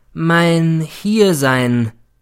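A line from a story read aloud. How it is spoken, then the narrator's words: Slow and emphatic. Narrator (German): begann er wieder langsam und betont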